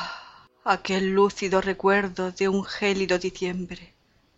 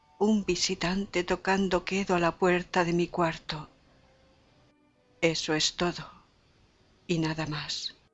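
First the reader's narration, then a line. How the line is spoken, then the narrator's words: Muttered. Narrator (Spanish): dije musitando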